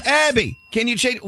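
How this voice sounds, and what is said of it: Yelling loudly. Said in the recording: “Why am I yelling?”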